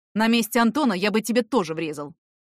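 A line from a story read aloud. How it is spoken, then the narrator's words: Angry. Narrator (Russian): сказал сердито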